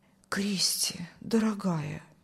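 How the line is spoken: Whispering. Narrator (Russian): шептал пастор

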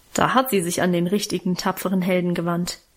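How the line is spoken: Mocking. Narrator (German): meinte ich spöttisch

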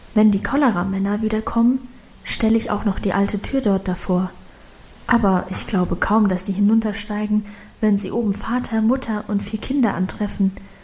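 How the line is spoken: Whispered explanation. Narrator (German): erklärte sie flüsternd

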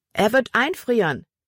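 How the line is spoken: Calling out. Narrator (German): rief Libby Emma zu

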